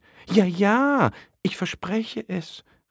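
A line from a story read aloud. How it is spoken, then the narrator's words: Excited chatty call. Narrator (German): rief die redselige Schildkröte ganz aufgeregt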